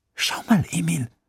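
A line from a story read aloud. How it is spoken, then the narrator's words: Excited whisper. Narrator (German): flüsterte Sophia aufgeregt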